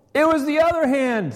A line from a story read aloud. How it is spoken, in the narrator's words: shouted